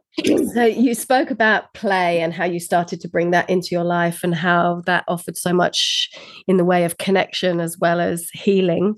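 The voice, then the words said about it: Weird voice from coughing. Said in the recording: “Sorry, I'm coughing, so my voice is a bit weird.”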